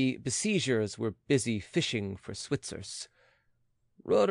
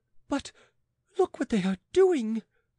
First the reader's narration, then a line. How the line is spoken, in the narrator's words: exclaimed the queen